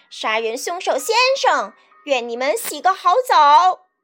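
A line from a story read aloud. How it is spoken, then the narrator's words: Gleeful laughing shout. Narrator (Chinese): 皮诺吉奥……高兴得哈哈大笑，边跑边大叫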